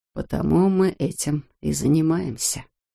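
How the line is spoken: Quiet. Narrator (Russian): тихо сказал он

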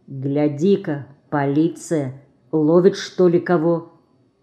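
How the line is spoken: Quiet. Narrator (Russian): Федька тихо сказал

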